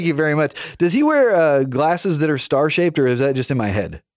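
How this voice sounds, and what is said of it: Usual voice. Nothing is said of it.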